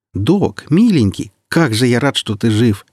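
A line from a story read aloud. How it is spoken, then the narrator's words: Joyful exclamation. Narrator (Russian): воскликнул Сочинский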